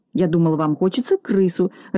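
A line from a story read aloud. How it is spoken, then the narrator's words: Confused mutter. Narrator (Russian): растерянно пробормотал Бигль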